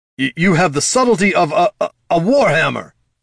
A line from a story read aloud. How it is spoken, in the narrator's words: shouted the Noctomancer